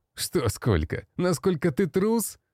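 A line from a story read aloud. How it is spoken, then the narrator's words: Laughing. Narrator (Russian): рассмеялся тот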